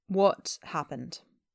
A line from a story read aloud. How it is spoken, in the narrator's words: Changbin asks calmly